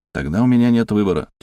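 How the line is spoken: Heavy sigh. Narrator (Russian): тяжело вздохнул я

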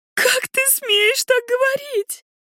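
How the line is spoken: Sobbing. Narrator (Russian): всхлипывает

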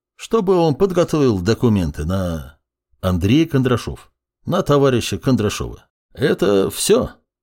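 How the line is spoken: Calm, no displeasure. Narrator (Russian): вопрос был задан спокойно, без недовольных ноток в голосе

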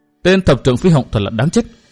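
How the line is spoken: Murderous mutter through teeth. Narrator (Vietnamese): Người cung trang cặp mắt đột nhiên sát khí kinh người, nàng nghiến răng miệng lẩm bẩm

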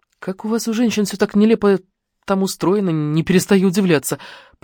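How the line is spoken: Muttered. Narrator (Russian): пробормотал Мика

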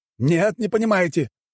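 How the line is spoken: Shouted. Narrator (Russian): крикнул

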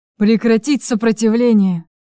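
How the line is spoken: Hoarse growled order. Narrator (Russian): Хрипло прорычал приказ Чарослав

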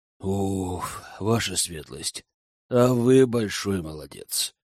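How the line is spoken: Breathless exhale. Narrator (Russian): выдохнула ведьма

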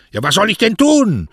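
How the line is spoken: Very loud shout. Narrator (German): schrie so laut, dass man ihn in der ganzen Bucht hören konnte

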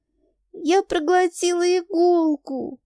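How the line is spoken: Loud shriek. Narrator (Russian): взвизгиваю я на весь дом

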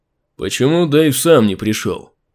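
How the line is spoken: Displeased grumble. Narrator (Russian): недовольно пробурчал

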